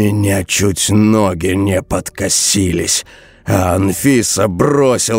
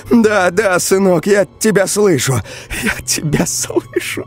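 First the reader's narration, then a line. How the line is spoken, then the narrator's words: Sobbing. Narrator (Russian): Она всхлипнула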